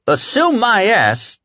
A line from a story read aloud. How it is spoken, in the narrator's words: Ted Frampton shouted from the third row